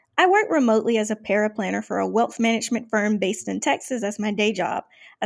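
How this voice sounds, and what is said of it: Southern US accent. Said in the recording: “You may or may not hear that Southern accent.”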